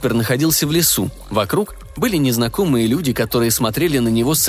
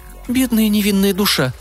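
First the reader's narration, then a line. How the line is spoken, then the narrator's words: Woman's sigh. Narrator (Russian): вздохнула женщина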